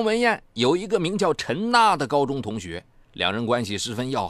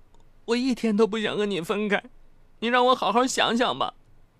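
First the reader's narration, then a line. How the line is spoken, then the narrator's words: Crying. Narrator (Chinese): 张文艳哭着说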